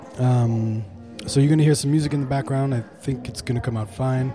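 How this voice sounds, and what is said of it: Slightly rough, unwell-sounding voice. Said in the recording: “as you can tell, my voice is a little messed up”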